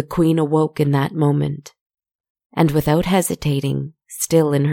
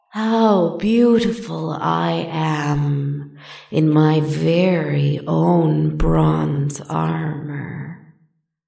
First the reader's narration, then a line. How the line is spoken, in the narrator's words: she purred admiringly